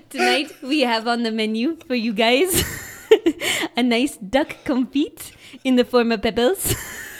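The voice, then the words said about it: Exaggerated French waiter accent. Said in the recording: “It's such a shitty accent. ... a French guy wouldn't say that.”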